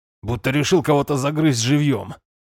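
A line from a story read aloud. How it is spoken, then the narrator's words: Amused snort. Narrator (Russian): хмыкнул Шайрах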